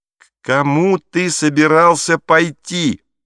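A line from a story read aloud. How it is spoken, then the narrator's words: Shouted. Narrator (Russian): прокричала Гретель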